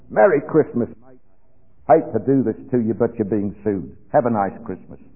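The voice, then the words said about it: Broad Australian accent. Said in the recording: “with a broad Australian accent”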